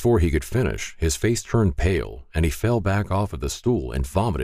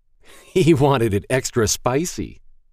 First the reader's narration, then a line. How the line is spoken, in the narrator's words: Ben said, laughing